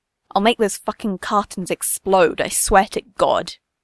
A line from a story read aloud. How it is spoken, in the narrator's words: snarls